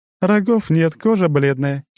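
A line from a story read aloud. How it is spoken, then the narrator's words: Giggling. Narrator (Russian): хихикнула она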